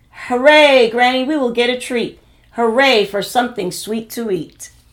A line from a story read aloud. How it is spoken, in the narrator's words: The children shouted